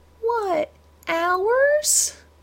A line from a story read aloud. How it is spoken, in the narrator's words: Madison whined, in an impressive impersonation of her uncle denied a snack